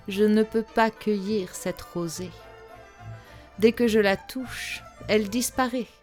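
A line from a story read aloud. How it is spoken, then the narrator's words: Ashamed moan. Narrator (French): gémit la princesse rouge de honte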